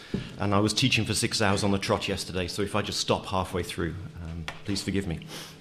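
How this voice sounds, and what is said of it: Hoarse, failing voice. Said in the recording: “My kids have infected me, so I'm losing my voice.”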